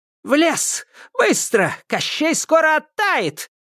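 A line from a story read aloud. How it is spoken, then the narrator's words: Shouted. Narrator (Russian): крикнула баба-яга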